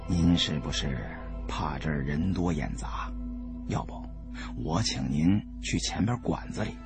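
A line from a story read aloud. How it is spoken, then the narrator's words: Lowered voice. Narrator (Chinese): 我又压低声音说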